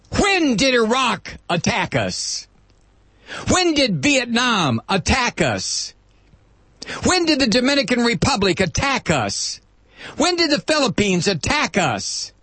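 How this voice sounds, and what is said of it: Yelling, loud angry delivery. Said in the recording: “I'm yelling again”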